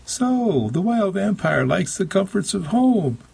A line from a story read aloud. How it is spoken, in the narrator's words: Meg laughed and said